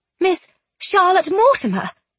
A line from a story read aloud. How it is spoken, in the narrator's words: Penelope exclaimed